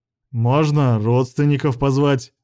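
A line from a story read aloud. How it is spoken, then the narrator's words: Snorting grunt. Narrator (Russian): хмыкнул Исиэль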